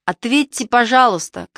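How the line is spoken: Shouted. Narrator (Russian): крикнул О

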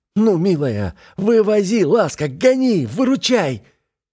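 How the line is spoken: Shout. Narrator (Russian): закричав

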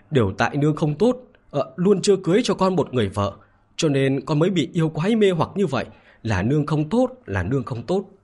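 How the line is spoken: Anxious old woman crying. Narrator (Vietnamese): Bà lão trong lòng sốt ruột, khóc lóc nói

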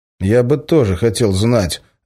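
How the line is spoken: Angry grimacing tone. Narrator (Russian): зло скривился

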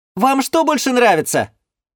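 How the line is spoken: Shout from afar. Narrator (Russian): крикнула из далекой от нас песочницы Сибил

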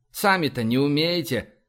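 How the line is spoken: Displeased grumble. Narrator (Russian): проворчал Изя, недовольно морщась

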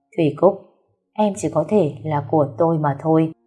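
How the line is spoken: Angry, fists clenched. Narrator (Vietnamese): nhìn theo với ánh mắt tức giận, hai tay nắm chặt với nhau nói

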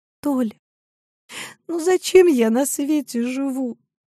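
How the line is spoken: Trembling voice. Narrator (Russian): дрожащим голосом сказала она

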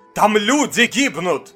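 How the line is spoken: Doctor shouting. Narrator (Russian): выкрикнул доктор

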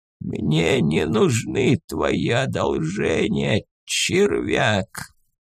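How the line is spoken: Hoarse rasp, mad laughter. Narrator (Russian): прохрипел вождь, раздражаясь безумным смехом

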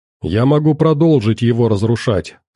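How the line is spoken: Plain. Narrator (Russian): сказала Вэл

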